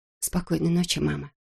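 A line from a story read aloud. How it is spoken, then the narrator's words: Whispering. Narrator (Russian): шепнула она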